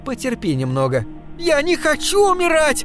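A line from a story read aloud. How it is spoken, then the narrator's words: Girl shrieking. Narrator (Russian): завизжала девушка, широко открыв рот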